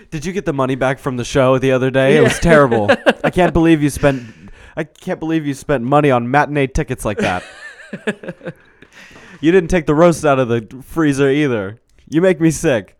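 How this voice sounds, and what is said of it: Impression of a 1989 gay man. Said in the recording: “I'm a 1989 gay guy. ... You can tell it's a really good impression because I'm doing it well.”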